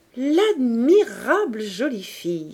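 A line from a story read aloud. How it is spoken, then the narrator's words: Exclaimed. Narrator (French): s'écriait-il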